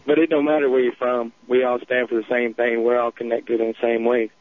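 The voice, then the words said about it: Southern country accent. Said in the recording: “And Southern, I know people get a kick out of my country accent”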